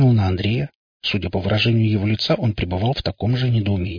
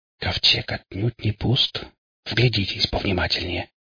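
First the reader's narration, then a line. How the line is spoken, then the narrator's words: Lowered to whisper. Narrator (Russian): понизив голос до шепота, сказал Ингвар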